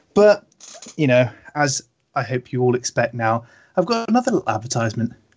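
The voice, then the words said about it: Weak, strained sick voice. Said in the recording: “my voice is dying a little bit today, as I'm quite under the weather”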